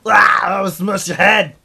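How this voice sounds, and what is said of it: Bad Arnold Schwarzenegger impression. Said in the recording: “worst Arnold impression”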